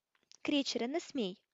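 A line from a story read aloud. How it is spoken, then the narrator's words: Exclaimed. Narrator (Ukrainian): вигукнув Гаррі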